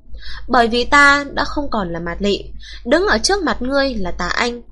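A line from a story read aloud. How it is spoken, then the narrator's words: Icy, emotionless. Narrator (Vietnamese): Môi Mạt Lị khẽ động, một hồi lâu cuối cùng mới phát ra giọng nói vô tình lạnh như băng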